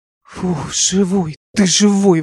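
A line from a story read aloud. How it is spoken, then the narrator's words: Relieved breath. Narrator (Russian): выдохнул Алик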